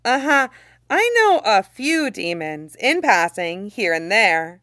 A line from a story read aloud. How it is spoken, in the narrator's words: Shang Qinghua says, in a humorous tone that falls flat to his own ears